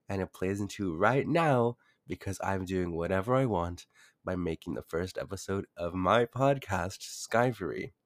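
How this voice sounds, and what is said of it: Congested, deeper-than-usual voice. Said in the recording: “my voice is actually a bit higher ... I woke up with cold symptoms, congestion, runny nose, and also a deeper voice. My throat actually hurts right now.”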